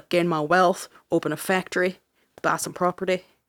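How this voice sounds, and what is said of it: Put-on unidentified accent. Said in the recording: “I don't know what this accent is.”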